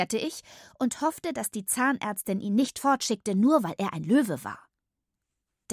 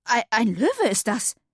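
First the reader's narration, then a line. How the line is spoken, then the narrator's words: Stammering. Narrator (German): stammelte Katinka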